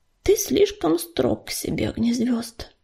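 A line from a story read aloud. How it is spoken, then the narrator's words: Uncertain faltering murmur. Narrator (Russian): неуверенно пролепетал Ежевика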